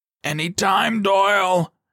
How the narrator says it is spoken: he yelled

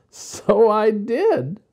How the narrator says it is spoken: replied Jessie, laughing

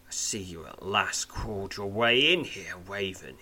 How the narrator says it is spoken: snarls

